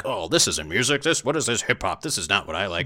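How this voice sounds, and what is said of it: Cartoonish voice like Homer Simpson. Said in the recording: “your impression of Aykroyd before. You sounded a lot like 1980s Homer Simpson.”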